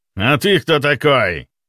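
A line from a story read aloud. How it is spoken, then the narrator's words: Rough shout, big brute. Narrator (Russian): Грубо выкрикнул громила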